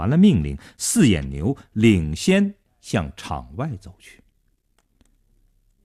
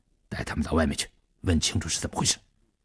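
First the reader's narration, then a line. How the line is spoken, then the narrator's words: Low-voiced command. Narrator (Chinese): 低声命令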